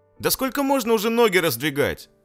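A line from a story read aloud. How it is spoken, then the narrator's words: Girl shouting. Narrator (Russian): кричала девочка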